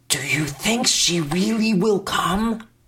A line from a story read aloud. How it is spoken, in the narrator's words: I whispered